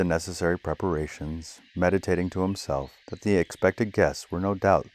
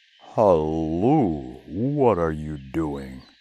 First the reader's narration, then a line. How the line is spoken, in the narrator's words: exclaimed the giant